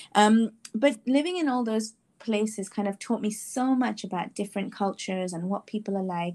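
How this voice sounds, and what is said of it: Hard-to-place mixed international accent. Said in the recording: “where's that accent from? We can't place it. I'm like, I think it's just a world accent.”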